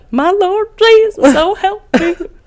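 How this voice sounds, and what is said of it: Put-on country Southern accent. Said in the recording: “Why did you just use that accent? ... I should have used like an English accent ... you have a country Southern accent”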